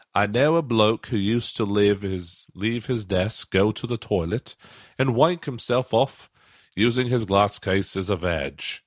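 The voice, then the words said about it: Put-on regional accent. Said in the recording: “I'm going to say this in the accent of the of where this would be from.”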